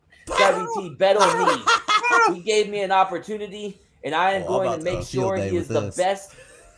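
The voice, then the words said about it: Put-on accent. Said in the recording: “I'm not sure if you're allowed to do this accent”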